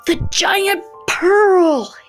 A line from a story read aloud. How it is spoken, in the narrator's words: he gasped